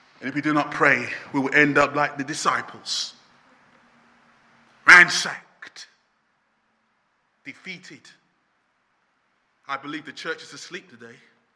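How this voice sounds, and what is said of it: Loud shouting preaching voice. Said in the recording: “I'm shouting this morning ... This guy is so loud.”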